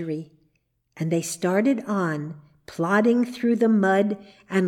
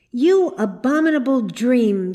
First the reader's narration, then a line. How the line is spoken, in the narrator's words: she cried